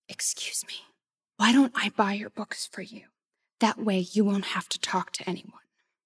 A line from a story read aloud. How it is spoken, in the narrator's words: I said quietly